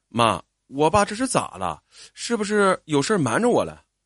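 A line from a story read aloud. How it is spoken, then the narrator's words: Hurried asking. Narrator (Chinese): 我急忙问妈妈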